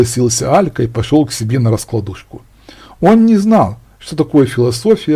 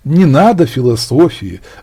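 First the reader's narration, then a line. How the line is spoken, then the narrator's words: Sigh. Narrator (Russian): вздохнул Игорь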